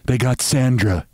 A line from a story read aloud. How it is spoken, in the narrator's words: she said finally